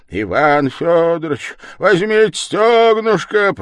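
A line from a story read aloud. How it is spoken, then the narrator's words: Bellowing waiter. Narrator (Russian): проревел, став на коленку официант с блюдом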